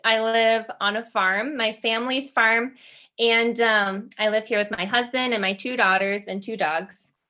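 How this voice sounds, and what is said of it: American Midwestern accent. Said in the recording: “I am from the USA, which I'm sure you can tell from my accent. I'm from the Midwest.”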